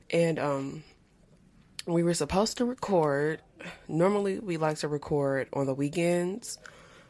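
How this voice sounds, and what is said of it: Low-energy, unenthusiastic voice. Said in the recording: “You can probably even hear it in my voice. I'm not really enthusiastic, not really connecting with my words”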